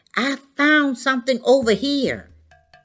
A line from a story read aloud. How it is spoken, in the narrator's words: one of the boys shouted